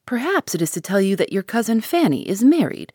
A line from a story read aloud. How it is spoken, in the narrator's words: said Mrs